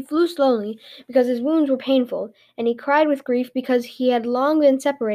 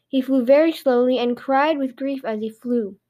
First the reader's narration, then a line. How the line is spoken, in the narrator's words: King Lei answered